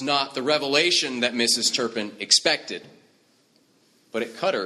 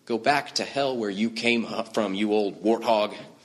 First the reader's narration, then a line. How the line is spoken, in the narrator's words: she whispered